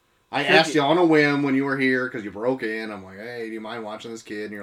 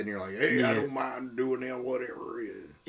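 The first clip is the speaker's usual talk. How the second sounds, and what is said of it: Bad impression of another person's voice. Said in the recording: “That's a really bad impression of me. ... Very bad. I can't get it. It hurts my throat. ... your impression kind of sounded a lot like Trucker Dan.”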